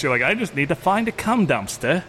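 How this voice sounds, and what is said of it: Brief British accent. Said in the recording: “flash into a British accent”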